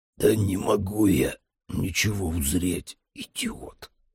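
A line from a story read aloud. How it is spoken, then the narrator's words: Hoarse wheeze. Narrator (Russian): прохрипел я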